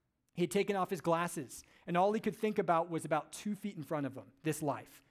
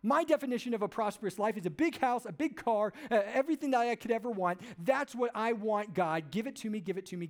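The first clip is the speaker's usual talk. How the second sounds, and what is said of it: Entitled demanding American voice. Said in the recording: “He sounded like an entitled 21st century American, right? I mean, that's what he sounds like right there.”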